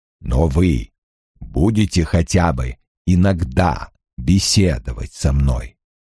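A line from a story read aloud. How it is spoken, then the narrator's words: Sighing rumbling bass question. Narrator (Russian): Вздохнув, спросил ракочущим басом Лойл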